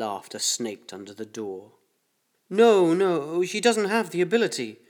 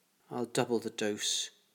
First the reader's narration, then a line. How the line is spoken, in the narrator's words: he spoke quietly